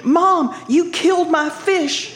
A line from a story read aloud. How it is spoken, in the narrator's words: Jamie, She screamed